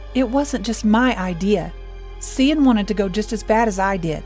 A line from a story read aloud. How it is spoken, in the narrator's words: Aiden answered, saying desperately